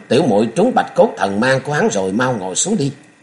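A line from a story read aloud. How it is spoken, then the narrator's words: Angry shout. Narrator (Vietnamese): Nhạc Tiểu Long giận dữ quát lên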